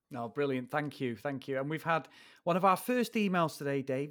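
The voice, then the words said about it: British accent. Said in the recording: “your British accents. Dave, it's the accents again. ... it's just the British accent.”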